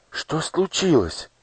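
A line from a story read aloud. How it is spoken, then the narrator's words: Frightened old woman asking. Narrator (Russian): испуганно спросила старушка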